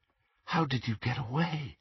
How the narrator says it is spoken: Harry asked, and he was not surprised to hear himself whispering

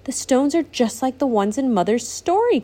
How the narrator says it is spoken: Courtney exclaimed

